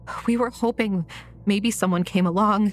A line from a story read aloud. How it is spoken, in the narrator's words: Leah said, her voice trembling